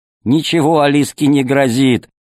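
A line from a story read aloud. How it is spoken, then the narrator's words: Laughing. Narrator (Russian): смеялся Полосков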